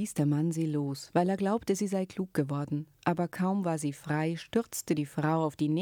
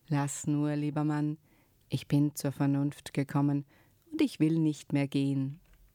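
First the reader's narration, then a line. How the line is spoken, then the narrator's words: Suddenly very calm. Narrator (German): war sie plötzlich ganz ruhig und sagte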